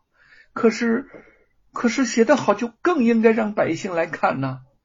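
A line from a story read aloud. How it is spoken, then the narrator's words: Sobbing, puzzled. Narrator (Chinese): 凤毛抽泣着 满是不解，说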